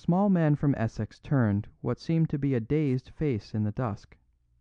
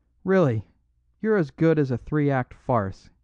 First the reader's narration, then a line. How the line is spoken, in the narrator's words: he cried